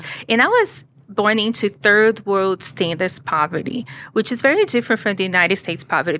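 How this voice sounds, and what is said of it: Brazilian accent. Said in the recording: “I was born in Brazil. You can probably hear the accent.”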